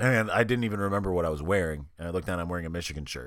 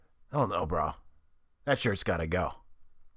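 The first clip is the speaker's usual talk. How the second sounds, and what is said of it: Imitates another person's voice. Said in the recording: “The terrible, terrible impression right now because I have no voice.”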